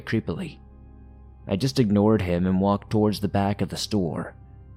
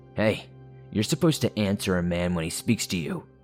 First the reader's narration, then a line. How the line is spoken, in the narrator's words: he said